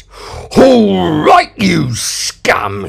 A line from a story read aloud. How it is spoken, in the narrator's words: he growled